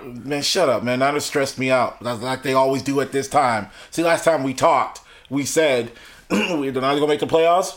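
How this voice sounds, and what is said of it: Hoarse, nearly lost voice. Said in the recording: “my voice is gone ... Oh my god, my voice.”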